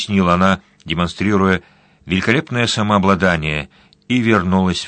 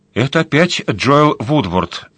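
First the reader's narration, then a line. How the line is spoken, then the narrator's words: Plain. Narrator (Russian): сказала Нуала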